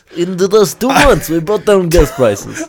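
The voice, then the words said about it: Put-on accent. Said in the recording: “I wanted to do an accent”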